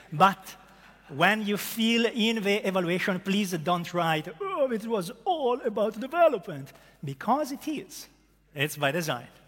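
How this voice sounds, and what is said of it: Strong Italian accent. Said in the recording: “hippies with a strong Italian accent ... As you can hear from my accent”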